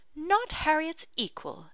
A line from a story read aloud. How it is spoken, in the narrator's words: exclaimed Mr